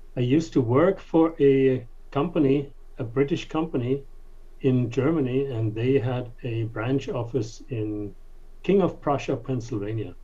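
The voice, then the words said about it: Slight German accent. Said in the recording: “You don't have a New York accent... they detect an accent... I am from Germany”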